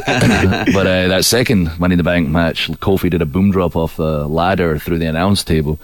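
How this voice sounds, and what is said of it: Scottish accent with American tinge. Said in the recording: “I've got a bit of an American Scottish accent these days”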